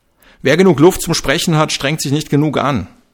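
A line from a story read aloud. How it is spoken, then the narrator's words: Calling out. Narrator (German): rief der Co-Trainer Augenthaler zu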